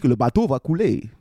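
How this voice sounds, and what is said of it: Weak attempt at Russian accent. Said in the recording (French): “J'ai essayé de faire un accent russe, j'ai pas réussi. ... C'est mieux. ... Bof, pas terrible.”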